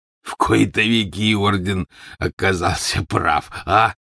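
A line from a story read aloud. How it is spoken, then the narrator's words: Stocky man, hoarse chuckle. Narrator (Russian): произнес сидевший неподалеку от Яксли коренастый мужчина и издал хриплый смешок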